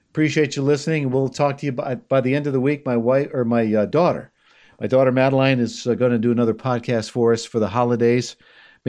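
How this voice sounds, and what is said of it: Strained, worn-out voice. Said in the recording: “For some reason, my voice has uh, decided to go south.”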